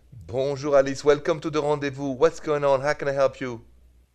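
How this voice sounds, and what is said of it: Noticeable foreign accent. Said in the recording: “I love your accent”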